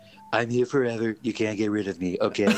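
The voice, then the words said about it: Donald Trump impression. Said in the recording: “Donald Trump impersonator ... that Trump impersonation, that was really good”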